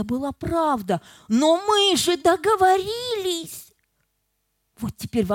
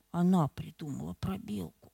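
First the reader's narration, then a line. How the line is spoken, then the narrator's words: Quiet whisper. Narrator (Russian): Наконец он тихо прошептал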